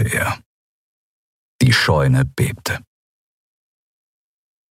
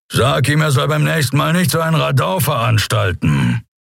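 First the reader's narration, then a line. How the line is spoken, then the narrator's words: Unimpressed growl. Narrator (German): knurrte er unbeeindruckt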